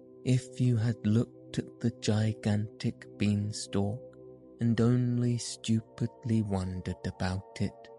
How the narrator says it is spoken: said

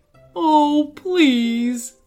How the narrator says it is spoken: wailed Mr

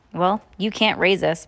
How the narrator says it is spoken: Violet said

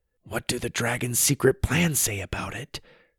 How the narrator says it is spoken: Sawyer whispered, making sure Gundy couldn't hear him

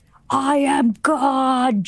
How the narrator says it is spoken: Jesus bellowed

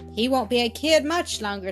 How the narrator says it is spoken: said Mrs

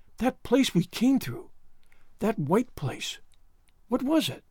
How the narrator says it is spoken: she whispered

